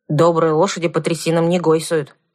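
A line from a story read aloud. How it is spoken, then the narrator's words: Grumbled. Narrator (Russian): пробурчал Кузьмай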